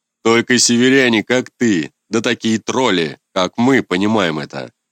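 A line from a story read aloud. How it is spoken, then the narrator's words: Deep bass voice. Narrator (Russian): Пробасила эта образина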